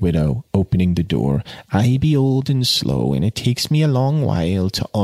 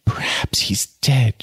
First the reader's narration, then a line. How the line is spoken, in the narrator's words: she gasped